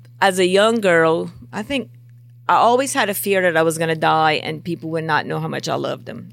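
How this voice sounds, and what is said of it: Louisiana bayou regional accent. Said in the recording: “Especially if you open your mouth, then they're like, you definitely from that. ... The accent gives me away, too.”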